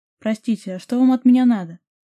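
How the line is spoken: Question, then loud yawn. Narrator (Russian): спросил и громко со звуком зевнул

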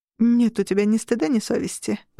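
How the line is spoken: Muttered. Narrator (Russian): пробормотала Ямут

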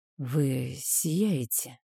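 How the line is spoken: Sudden whisper. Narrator (Russian): прозвучал внезапный шепот

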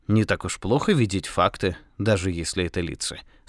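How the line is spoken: Calm. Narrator (Russian): спокойно сказал отец Браун

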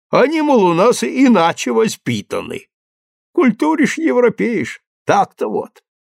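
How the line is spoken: Laughing reply. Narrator (Russian): он засмеялся и отвечает

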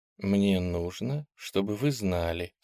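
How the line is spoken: Calm. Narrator (Russian): спокойно сказала она

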